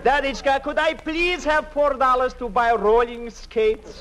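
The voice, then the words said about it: Put-on Russian accent. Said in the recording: “What's the idea of doing Russian?”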